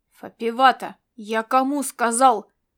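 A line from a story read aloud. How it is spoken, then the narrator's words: Barking shout. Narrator (Russian): рявкнул он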